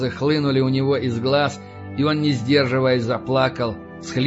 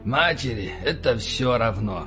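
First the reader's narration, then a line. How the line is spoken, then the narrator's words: Sullen grumble. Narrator (Russian): хмуро проворчал Эванс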